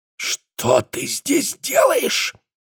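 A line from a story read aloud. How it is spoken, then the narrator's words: Angry whisper. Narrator (Russian): гневным шепотом произнес он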